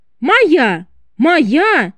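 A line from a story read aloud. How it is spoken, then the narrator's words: Two voices shouting. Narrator (Russian): кричали оба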